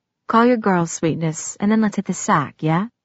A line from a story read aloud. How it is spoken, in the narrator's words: he said quietly